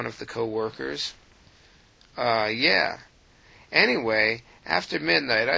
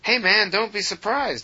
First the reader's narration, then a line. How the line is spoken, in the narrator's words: Harry piped up